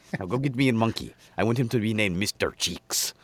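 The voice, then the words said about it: Imitated character voice. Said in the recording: “Do your gold dust impersonation.”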